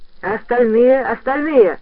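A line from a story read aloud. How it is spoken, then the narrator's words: Class shouting in unison. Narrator (Russian): хором закричали в классе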